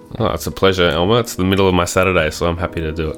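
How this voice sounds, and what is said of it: Australian accent. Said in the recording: “that accent. I think Australian accents are my favorite”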